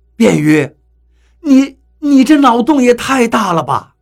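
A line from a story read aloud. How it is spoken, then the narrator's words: Wry laugh. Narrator (Chinese): 我苦笑了一下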